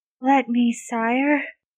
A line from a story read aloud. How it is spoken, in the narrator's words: he breathes pleadingly